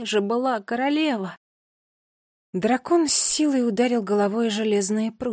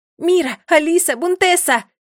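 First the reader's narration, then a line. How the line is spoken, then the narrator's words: Shouted. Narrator (Russian): крикнула Нола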